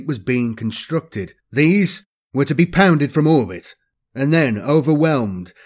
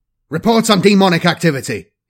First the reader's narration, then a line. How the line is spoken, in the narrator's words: barked